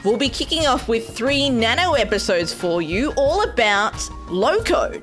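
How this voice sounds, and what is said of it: Australian accent. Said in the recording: “this adorable Australian accent”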